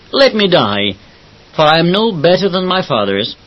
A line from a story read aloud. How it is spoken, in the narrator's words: Elijah exclaimed